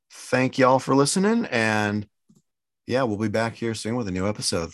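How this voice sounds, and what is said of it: Smooth, cozy FM radio voice. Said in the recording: “my super radio voice now, the, the chilling, cozy FM”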